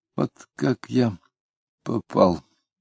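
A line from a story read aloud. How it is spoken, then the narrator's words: Quiet. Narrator (Russian): тихонько произнес Кутузов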